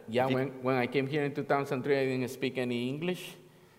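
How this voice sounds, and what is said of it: Spanish-accented English. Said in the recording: “Now I speak English with the Spanish accent”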